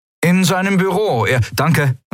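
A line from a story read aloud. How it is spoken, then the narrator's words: Calling out. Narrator (German): rief Kai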